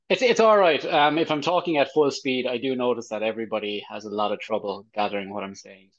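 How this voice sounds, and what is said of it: Irish accent. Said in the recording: “I've got a nice accent ... compliment me on the Irish one ... I quite like the Irish accent”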